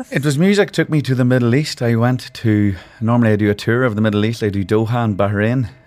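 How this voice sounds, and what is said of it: Northern Irish accent. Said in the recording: “loving the accent. Absolutely perfect ... I'm from Tyrone. It's in Ireland. It's up in the north ... my accent”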